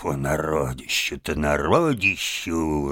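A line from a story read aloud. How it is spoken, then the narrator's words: Muttered. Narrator (Russian): Барсук пробормотав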